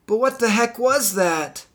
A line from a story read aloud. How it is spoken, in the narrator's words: Marty exclaimed, with excitement